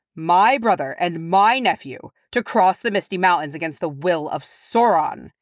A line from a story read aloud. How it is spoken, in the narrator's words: he roared